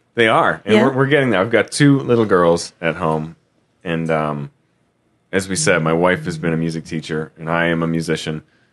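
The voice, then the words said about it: Worn, strained voice. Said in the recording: “I feel like my voice is not at its best... my voice is not... my voice is a little bit shot”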